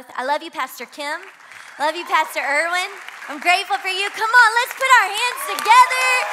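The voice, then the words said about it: Slight Southern American twang. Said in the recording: “if you can't tell, I'm not from Miami. Can you hear that at all? Is it there? There's a little bit of a southern twang. I'm from Louisiana.”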